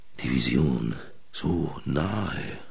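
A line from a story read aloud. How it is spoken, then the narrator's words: Murmuring. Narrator (German): murmelte er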